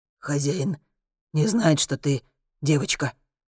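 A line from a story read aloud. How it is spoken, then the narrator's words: Whispered question. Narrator (Russian): Шепотом спрашивает Дагрон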